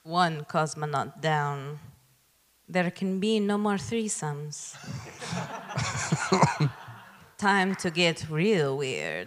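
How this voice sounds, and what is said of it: Put-on foreign accent. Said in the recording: “I feel like I need to do the accent too. Should I do the accent?”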